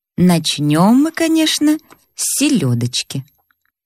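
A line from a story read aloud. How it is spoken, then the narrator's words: Calm worldly tone. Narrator (Russian): сказал уже спокойным тоном светского человека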